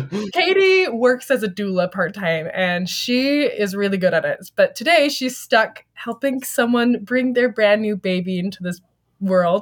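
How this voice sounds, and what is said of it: Scratchy, slightly sick voice. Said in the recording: “my voice is a little bit scratchy this weekend with the autumn air here in Utah starting. I'm feeling a little bit sick.”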